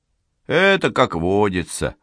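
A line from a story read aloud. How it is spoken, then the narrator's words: Soldier's sigh. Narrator (Russian): вздохнул солдат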